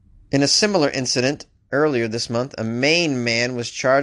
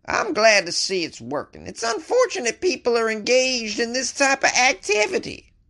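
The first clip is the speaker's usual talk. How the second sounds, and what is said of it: Attempted female Texas accent. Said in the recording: “That's not really a female Texas accent, but I did my best.”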